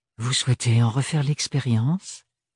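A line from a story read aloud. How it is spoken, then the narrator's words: Sugary, honeyed voice. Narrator (French): dit-il d'une voix doucereuse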